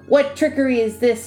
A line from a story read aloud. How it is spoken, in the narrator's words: He cried